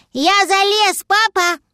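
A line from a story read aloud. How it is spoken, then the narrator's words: Little dragon shouting. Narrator (Russian): крикнул дракончик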